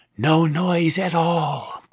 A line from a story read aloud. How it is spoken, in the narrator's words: breathed Amy